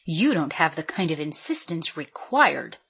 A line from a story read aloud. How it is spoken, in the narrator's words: Helen said, her voice low and firm